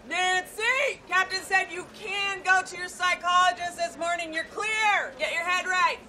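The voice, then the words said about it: Yelling loudly. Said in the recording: “I'm yelling everything now”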